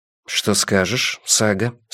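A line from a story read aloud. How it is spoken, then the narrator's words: Plain. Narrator (Russian): спросил Йона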